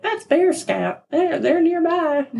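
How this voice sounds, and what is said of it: Southern accent. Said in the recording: “I don't know why I gave her a southern accent.”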